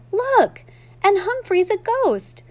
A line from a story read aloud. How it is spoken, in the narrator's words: I continued to squeak my heart out